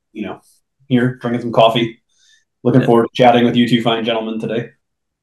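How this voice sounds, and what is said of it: Slightly scratchy voice. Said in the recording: “my voice is a little scratchy today. I got I don't know if it's allergies or cold or what”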